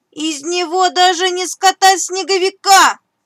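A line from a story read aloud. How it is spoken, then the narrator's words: Hares shouting after someone. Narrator (Russian): крикнули вдогонку зайцы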